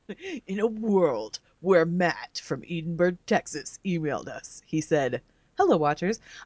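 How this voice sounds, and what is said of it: Dramatic movie-trailer narrator voice. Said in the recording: “her doing like a, an audio drama of the emails ... Give us your best dramatic voice.”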